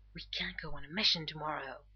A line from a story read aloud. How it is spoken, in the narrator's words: Rodney hisses